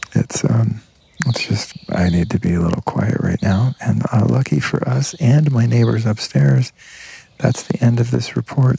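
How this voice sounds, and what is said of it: Quiet, whispery voice. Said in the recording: “it's getting pretty late here, and I've got neighbors. That's why my voice is kind of whispery.”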